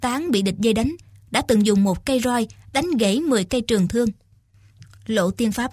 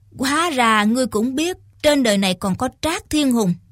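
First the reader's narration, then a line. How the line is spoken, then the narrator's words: Smiling old man. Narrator (Vietnamese): Lão già mù mỉm cười nói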